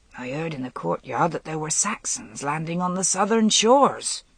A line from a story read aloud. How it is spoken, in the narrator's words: the woman grumbled